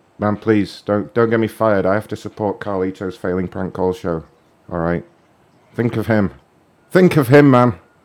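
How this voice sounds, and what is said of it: British accent. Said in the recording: “your accent? ... she's just realized I'm British”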